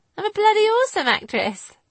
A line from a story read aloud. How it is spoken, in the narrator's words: Lizzie replied, laughing